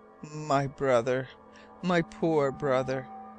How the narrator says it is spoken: When Captain Len Guy could speak, he murmured

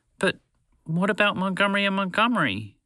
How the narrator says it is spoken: Phoebe pleaded

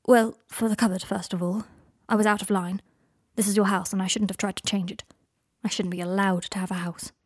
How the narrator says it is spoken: said Harry

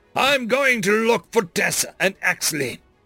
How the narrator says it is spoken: Elias growled

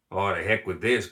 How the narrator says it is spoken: grumbled Cooper Jones

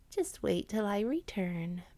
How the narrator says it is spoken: purred Whitehead in Blackfoot's ear

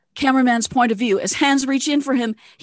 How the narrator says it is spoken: he yells louder

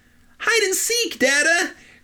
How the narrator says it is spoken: cried Gip

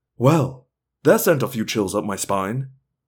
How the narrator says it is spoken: Rachel moved close to me and whispered in my ear

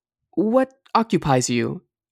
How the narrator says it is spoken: asked Else nervously

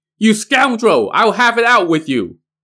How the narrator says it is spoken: He now shouted

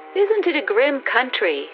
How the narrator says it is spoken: she said cheerfully

